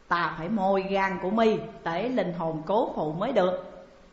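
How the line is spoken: Harsh, menacing voice. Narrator (Vietnamese): Cam Tử Long gằn giọng bảo

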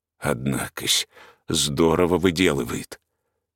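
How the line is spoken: Gruff sleepy mutter. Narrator (Russian): Он был мужик суровый и насмешливый, и потому, проснувшись, он первым делом пробормотал

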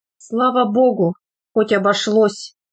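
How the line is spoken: Woman sighing with relief. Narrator (Russian): вздохнула какая-то баба

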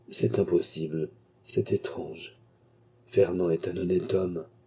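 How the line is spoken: Murmuring to himself. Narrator (French): murmura-t-il, comme se parlant lui-même

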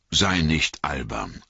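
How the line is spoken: Plain. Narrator (German): sagte Gandalf

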